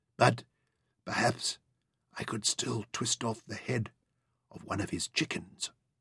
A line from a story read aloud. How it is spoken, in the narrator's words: Penrod whispered